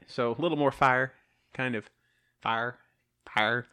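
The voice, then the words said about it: Southern US accent, 'fire' sounds like 'far'. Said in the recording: “My southern accent's taking over. ... No, that's far. ... That's far right there. That's far.”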